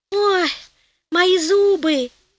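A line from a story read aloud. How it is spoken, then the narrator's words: Groaning in pain. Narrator (Russian): застонал Гонелло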